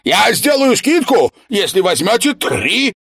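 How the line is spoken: Merchant calling after. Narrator (Russian): кричал им вслед одаренный торговец

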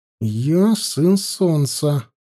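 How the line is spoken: Through clenched teeth. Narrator (Russian): напомнил он сквозь зубы

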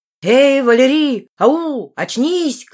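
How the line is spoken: Shouting. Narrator (Russian): кричал

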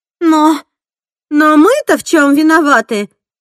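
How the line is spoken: Elderly woman exclaiming. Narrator (Russian): воскликнула пожилая американка

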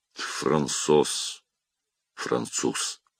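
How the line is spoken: Whispered through teeth, to himself. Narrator (Russian): прошептал сквозь зубы, как бы про себя

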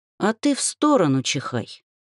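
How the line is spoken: Gloomy advice. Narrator (Russian): мрачно посоветовала я

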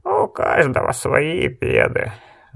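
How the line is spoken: Sighing. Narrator (Russian): вздохнул Гец

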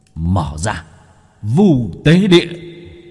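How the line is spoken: Strained shout. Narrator (Vietnamese): Bác cổ cố gắng, hét lên

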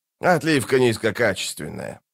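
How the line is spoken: Grumbled. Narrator (Russian): проворчал он

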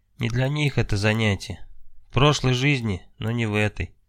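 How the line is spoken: Heavy sigh, then speaking. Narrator (Russian): Алексей тяжело вздохнув, сказал

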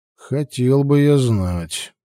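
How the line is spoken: Grumbling. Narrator (Russian): проворчал Грег

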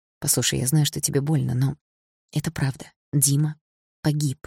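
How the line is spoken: Quiet speech. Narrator (Russian): тихо произнес Игорь

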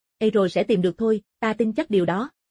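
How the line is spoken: Smiling. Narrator (Vietnamese): Bạch Thu lại mỉm cười

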